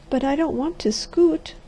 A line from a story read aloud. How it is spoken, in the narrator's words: she said unsteadily